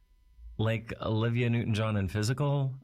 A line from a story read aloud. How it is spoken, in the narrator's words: I asked, laughing at the thought